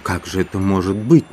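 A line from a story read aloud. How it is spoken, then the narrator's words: Involuntary question. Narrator (Russian): невольно спросила Маргарита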